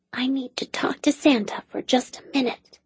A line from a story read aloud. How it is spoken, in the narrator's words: the girl whispered